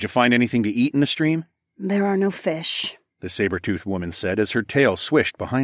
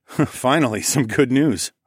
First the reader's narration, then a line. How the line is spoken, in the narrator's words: I chuckled